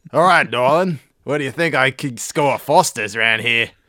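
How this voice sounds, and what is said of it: Put-on Australian accent. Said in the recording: “Started talking to her with my Australian accent.”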